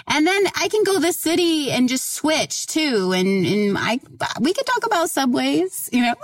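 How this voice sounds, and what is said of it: Oklahoma accent. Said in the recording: “I do have an Oklahoma accent, and so it messes up my R's.”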